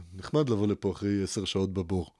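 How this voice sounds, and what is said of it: Imitates another person's voice. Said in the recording (Hebrew): “חיקוי טוב, אה? ... אני עושה ביבי מצוין”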